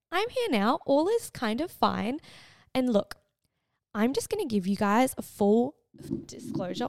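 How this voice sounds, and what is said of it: Croaky, hoarse, partly lost voice. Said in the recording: “I sound like a croaky frog ... I have pretty much lost my voice ... My voice was non-existent”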